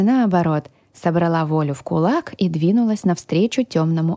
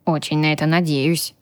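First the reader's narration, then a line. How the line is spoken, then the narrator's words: Gruff mutter. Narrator (Russian): буркнул дракон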